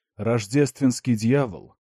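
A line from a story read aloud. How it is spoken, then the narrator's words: Growl. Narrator (Russian): прорычал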